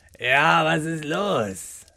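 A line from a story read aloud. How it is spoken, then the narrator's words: Growl. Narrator (German): knurrte Rainer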